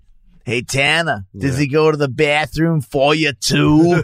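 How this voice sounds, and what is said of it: Imitates another person's weird accent. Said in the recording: “He's got such a weird accent.”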